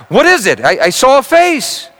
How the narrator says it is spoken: cried

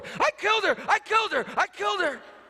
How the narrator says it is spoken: He started screaming

